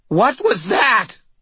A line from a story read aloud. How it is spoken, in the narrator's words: Butters screamed